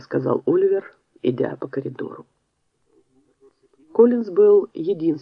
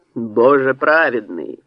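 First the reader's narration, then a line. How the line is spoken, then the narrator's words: Roar. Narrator (Russian): взревел он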